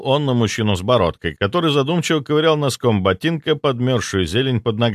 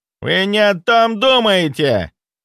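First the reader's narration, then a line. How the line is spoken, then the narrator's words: Barking. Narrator (Russian): рявкнул Боярышников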